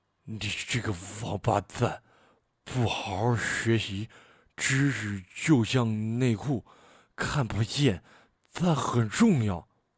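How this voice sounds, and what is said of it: Toothless old woman's voice. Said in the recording (Chinese): “模仿缺了牙的口音给这个老奶奶配音”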